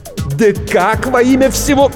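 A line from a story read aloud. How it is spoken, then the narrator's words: Howl, cut short. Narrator (Russian): взвыл было Блейк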